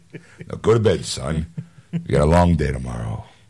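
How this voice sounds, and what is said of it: Put-on radio announcer voice. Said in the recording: “That'd be my new radio voice.”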